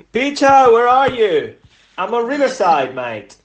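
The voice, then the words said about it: Put-on Cockney accent. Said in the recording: “that's my Cockney accent apparently ... you definitely don't mimic accents”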